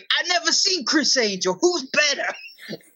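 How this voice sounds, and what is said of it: Imitates another person's voice. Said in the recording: “Taz's voice. ... your Taz impression.”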